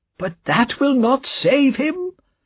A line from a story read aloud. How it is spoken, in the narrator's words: cried Mr